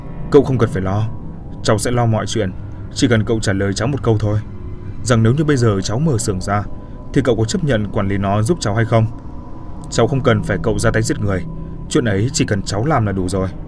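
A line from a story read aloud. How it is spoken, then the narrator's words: Angry. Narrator (Vietnamese): Việt tức giận nói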